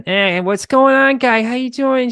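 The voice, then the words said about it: Mimicked Boston suburban accent. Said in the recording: “classic Boston suburban ... I can mimic the accent”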